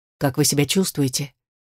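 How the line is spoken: Quiet inquiry. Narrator (Russian): Тихо поинтересовался Ричард

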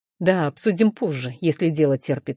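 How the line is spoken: Calm reply. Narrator (Russian): спокойно отвечает он

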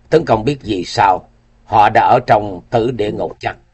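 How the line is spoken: Suddenly cold tone. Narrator (Vietnamese): bỗng đổi giọng lạnh lùng

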